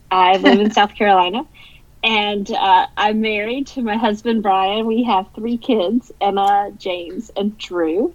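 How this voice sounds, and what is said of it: Carolina Southern US accent. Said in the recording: “I am a Carolina girl. You might or might not be able to tell from the accent.”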